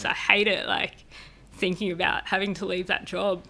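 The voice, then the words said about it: Emotional, upset voice. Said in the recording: “obviously you can hear it in my voice.”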